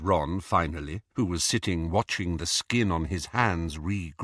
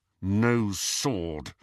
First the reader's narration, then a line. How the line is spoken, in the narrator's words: said Harry through gritted teeth